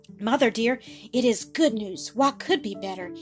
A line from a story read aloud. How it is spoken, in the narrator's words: he said, his voice quivering with excitement and joy